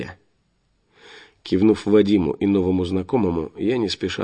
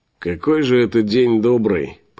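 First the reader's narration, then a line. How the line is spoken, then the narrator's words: Grumbling. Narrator (Russian): поворчал лысый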